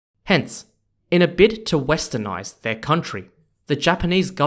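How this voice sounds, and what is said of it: Usual voice. Nothing is said of it.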